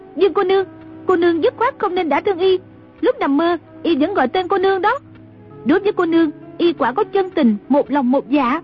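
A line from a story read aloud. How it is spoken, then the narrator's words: Cried out. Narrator (Vietnamese): Trung Linh la lên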